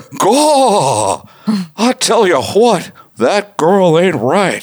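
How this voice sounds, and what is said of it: Hank Hill cartoon character impression. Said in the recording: “you do a Hank Hill impression”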